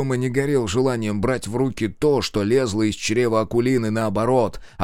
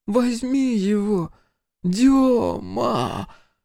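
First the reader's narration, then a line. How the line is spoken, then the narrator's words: Hoarse, coughing. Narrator (Russian): Хрипела Акулина, отхаркивая листки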